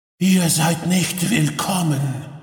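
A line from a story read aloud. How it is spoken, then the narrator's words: Deep, slightly hoarse female voice. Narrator (German): Ihre Stimme klang tief und ein wenig heiser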